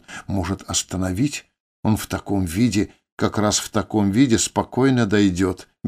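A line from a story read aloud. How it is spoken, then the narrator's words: Carefree. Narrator (Russian): беззаботно ответил Тель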